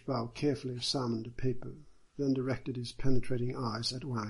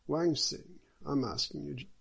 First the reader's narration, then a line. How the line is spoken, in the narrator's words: the judge said